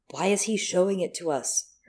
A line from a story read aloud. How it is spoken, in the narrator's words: her demon said quietly